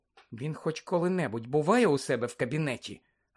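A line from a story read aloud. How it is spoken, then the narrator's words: Sudden whisper. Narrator (Ukrainian): раптом прошепотіла Герміона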